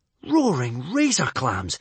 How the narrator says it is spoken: exclaimed Hiccup

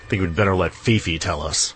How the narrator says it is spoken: growled his father

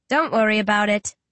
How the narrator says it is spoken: I chuckle

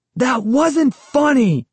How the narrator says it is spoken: I shouted angrily

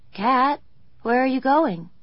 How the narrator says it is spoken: he called sleepily

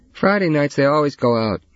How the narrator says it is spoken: Trevor yelled

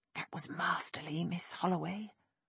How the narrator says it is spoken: Nick whispered

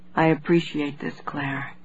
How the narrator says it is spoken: he said, his voice barely audible

